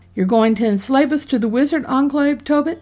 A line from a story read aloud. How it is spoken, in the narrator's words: That shout